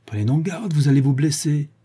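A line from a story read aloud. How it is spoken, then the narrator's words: Doctor exclaiming. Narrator (French): s'écria le médecin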